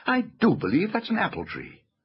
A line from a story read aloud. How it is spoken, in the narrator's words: exclaimed Lucy